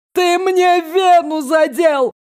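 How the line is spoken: Panicked shout. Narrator (Russian): в панике крикнул бывший соперник по драке

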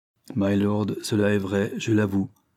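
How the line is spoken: Calm, respectful reply. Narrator (French): répondit Ravensburn d'un ton calme et respectueux

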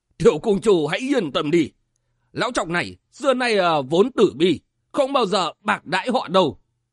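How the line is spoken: Loud laughter. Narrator (Vietnamese): Huyết Phật liền cười to

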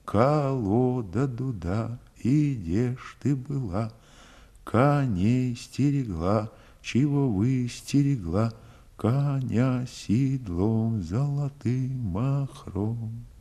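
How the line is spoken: Soft singing. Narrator (Russian): Запела тихонько

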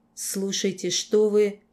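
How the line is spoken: Low, realistic growl. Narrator (Russian): он зарычал, глухо, но очень натурально

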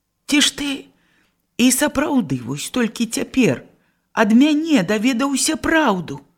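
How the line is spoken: Astonished exclamation. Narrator (Belarusian): З не меншым здзіўленнем усклікнула Аўдоцця

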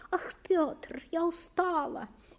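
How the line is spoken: Thin, weary moan. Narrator (Russian): еще тоньше простонала она

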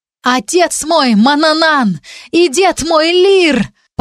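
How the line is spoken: Obedient shout. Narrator (Russian): послушно закричала я

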